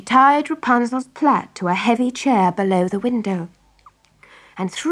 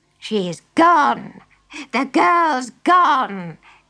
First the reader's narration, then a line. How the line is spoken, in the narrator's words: cackled the witch